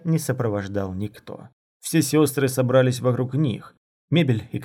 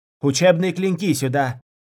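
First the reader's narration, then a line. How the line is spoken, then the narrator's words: Shouting. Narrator (Russian): кричала она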